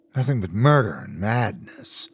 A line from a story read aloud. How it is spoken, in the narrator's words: she muttered